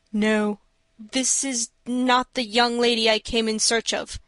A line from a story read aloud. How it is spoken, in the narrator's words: he replied, in a strained voice